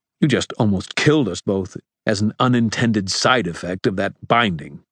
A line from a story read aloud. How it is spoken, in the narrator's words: Marcone snapped